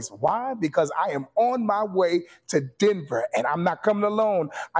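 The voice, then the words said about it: Excited, energetic voice. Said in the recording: “You can hear the excitement in my voice.”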